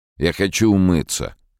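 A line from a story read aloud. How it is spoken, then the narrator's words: Said angrily. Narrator (Russian): Он злобно сказал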